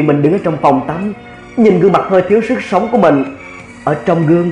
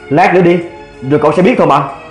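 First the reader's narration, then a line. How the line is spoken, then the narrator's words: Cold flat voice. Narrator (Vietnamese): lạnh lùng nói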